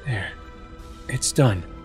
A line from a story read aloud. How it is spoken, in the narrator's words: Sheik whispered